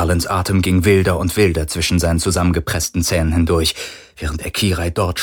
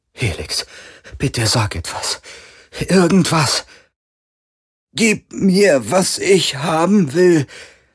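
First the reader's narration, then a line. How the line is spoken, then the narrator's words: Strained, ice-cold voice. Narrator (German): sagte Kirai mit angestrengter Stimme, kalt wie Marmor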